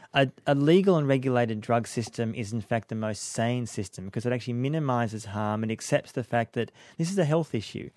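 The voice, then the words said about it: Australian accent. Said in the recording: “you can hear by his accent there, he's an Aussie ... Australian”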